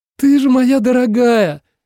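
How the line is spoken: Exclaiming. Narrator (Russian): воскликнула Дана

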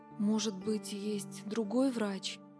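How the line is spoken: Muttered. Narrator (Russian): пробормотала

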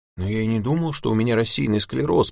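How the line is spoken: Stammering. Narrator (Russian): пролепетал

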